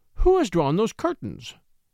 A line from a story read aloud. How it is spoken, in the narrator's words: she exclaimed